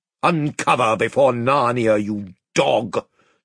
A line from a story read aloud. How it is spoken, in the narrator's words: thundered the Lord Byrne